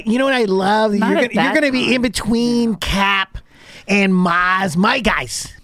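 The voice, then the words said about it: Imitates another person's voice. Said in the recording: “Is that your my Tommy impression?”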